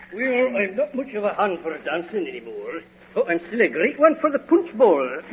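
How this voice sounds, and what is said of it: Phony put-on accent. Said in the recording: “You can drop the disguise ... Drop the phony accent.”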